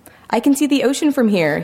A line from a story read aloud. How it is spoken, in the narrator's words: yelled